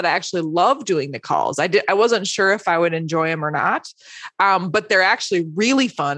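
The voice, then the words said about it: Strained voice, losing her voice. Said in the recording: “<coughs> excuse me, I'm losing my voice.”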